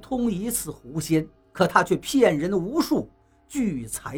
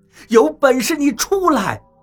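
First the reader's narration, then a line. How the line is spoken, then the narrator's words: Furious. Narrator (Chinese): 我开始狂怒了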